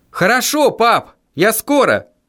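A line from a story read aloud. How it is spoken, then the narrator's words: Cheerful shout. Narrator (Russian): весело крикнул я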